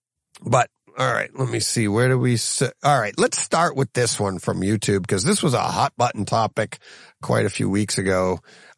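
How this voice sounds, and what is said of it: Strained, hoarse voice. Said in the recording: “I'm losing my voice here.”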